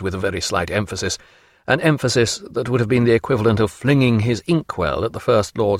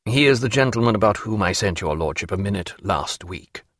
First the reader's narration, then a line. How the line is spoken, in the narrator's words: said Sir Joseph